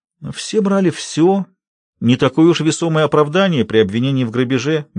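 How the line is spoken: Gentle. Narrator (Russian): мягко указал Барби

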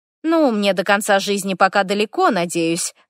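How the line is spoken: Cheerful reply. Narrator (Russian): отвечаю весело

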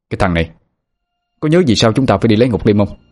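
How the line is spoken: Irritable snap. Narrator (Vietnamese): Anh Hùng gắt lên

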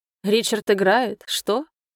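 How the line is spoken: Snorting. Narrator (Russian): хмыкнул Эндрю

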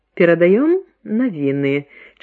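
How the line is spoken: Charming smile on screen. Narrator (Belarusian): чароўна усміхнулася з экрана Зося

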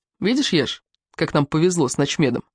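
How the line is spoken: Plain. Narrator (Russian): сказал Колдунов

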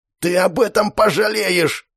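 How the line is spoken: Hissed threat. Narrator (Russian): Прошипел парень, измазанный в остатках еды и в крови из разбитого носа и губ

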